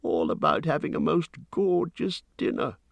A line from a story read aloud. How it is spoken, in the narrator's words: he grumbled